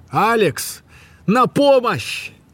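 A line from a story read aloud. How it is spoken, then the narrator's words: Very loud shout. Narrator (Russian): Он прокричал это так громко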